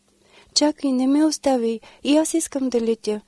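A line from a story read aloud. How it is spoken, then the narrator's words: Crying plea. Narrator (Bulgarian): проплака гасейничката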